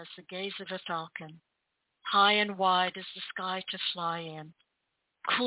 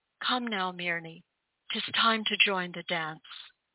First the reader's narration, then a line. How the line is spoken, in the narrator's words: his voice wavering